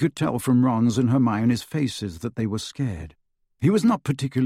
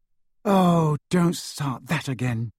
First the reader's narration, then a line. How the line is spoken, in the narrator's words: sighed Hermione